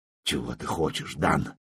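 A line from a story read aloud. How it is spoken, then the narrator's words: Old man's mutter, without defiance. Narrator (Russian): бормочет дед уже без всякого вызова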